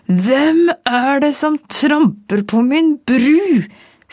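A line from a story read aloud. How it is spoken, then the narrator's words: Troll screaming. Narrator (Norwegian): skrek trollet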